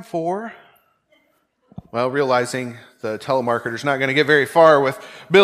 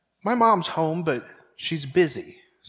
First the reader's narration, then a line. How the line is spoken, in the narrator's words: said Billy